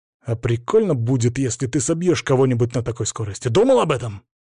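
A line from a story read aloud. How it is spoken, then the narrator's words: Sharp. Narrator (Russian): Слова прозвучали резко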